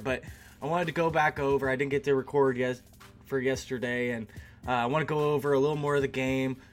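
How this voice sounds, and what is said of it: Scratchy, hoarse voice. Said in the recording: “excuse my voice as I am still dealing with allergies ... So I got a little bit of a scratchy throat, a little bit of cough”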